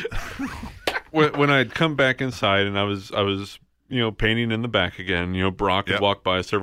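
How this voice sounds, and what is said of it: Usual voice. Nothing is said of it.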